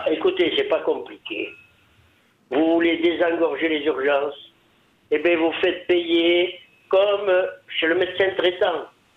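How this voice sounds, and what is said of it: Southern French accent. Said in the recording (French): “on est ravis d'entendre votre accent ... C'est le Sud qui arrive jusqu'à nous.”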